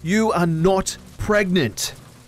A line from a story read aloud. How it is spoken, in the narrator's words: he snapped